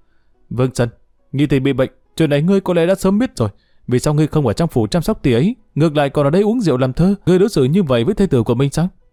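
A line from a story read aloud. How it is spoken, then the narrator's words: Loud interrogation. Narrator (Vietnamese): Triệu Nhan lớn tiếng chất vấn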